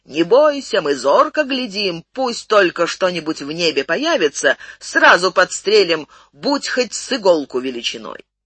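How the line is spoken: Guards shouting back. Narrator (Russian): Воины, сторожившие на кровле, крикнули в ответ

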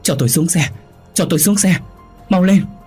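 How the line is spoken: Terrified repeated screaming. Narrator (Vietnamese): An sợ hãi đến tột độ, miệng liên tục thét lớn

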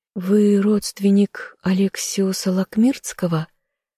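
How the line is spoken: Quiet question, young woman. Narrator (Russian): тихо поинтересовалась девушка

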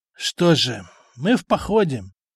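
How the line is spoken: Sigh, old warrior. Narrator (Russian): вздохнул пожилой воин

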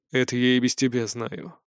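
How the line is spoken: Dry. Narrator (Russian): сухо сказал Синераэль

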